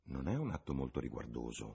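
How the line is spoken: Mother's murmur. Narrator (Italian): mormorò la voce di sua madre

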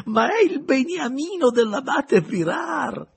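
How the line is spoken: Laughing exclamation. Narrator (Italian): esclamò il vescovo ridendo

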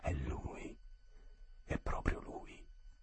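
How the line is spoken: Lower voice, almost joyful. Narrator (Italian): più a bassa voce, quasi con gioia

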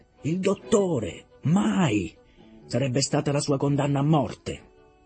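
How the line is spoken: Began shouting. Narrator (Italian): si mise a gridare

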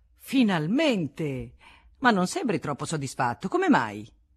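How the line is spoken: Exclaimed. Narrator (Italian): de Laurier, che esclamò

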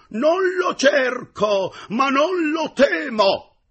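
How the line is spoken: Heroic. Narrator (Italian): Quegli rispose con tuono veramente eroico

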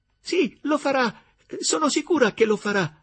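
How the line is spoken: Enthusiastic exclamation. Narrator (Italian): esclamò Gertrude con entusiasmo

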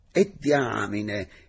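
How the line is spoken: Sudden astonished exclamation. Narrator (Italian): esclamò a un tratto, stupito

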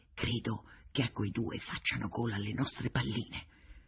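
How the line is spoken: Said quietly. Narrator (Italian): ho detto piano a Connai

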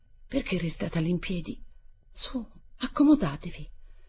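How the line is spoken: Strained pale murmur. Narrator (Italian): aveva incominciato a sbiancarsi in faccia, ma pure aveva trovato la forza di mormorargli

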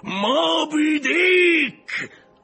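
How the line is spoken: Shouted. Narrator (Italian): urlò Acab

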